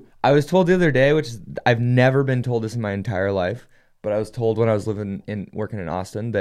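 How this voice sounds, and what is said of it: Usual voice. Nothing is said of it.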